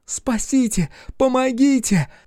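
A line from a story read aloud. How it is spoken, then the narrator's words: Sobbing, wailing cry. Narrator (Russian): Она плакала, рыдала, выла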